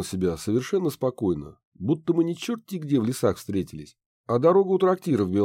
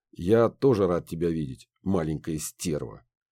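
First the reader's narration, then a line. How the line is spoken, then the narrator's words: Smirking snort. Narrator (Russian): хмыкнул Рагнар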